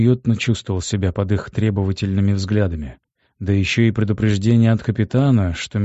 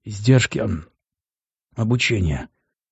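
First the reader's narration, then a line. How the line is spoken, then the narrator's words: Hoarse rasp. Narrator (Russian): прохрипел я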